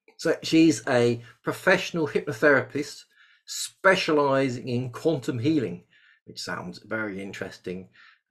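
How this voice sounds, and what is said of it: English accent. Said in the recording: “with my English accent.”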